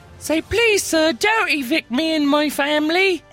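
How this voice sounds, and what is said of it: Put-on British accent, pleading. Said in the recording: “you use that accent? ... Everybody's a sucker for a British orphan.”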